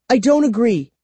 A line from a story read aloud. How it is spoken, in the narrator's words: Kara replied sharply